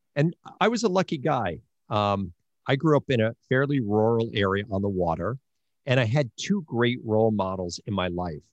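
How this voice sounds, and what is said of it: Long Island accent. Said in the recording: “I had a Long Island accent, which I hopefully I'm beginning to lose ... It probably sounds like a Long Island accent to you.”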